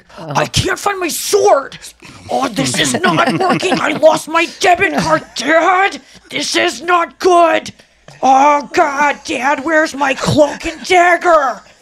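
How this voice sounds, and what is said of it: Imitates another person's voice. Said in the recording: “it sounds like the guy from Love on the Spectrum season 2 ... a great impression”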